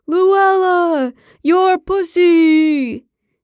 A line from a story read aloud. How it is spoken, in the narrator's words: He screamed out